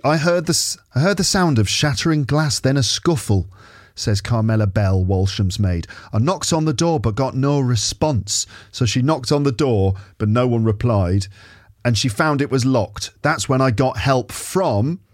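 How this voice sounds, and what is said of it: Questionable northern English put-on accent. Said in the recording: “What accent shall I do? If it's like Downton Abbey, I suppose she should sound like Mrs. Patmore ... I don't know about this accent. It's very questionable. Is this Manchester or Lancashire or Yorkshire?”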